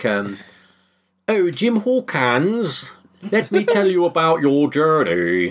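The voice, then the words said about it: Poor fake English transatlantic accent. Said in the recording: “clearly played by an American, doesn't really get an English accent ... It's even worse than that. ... that kind of weird transatlantic accent. Yeah, it's not good.”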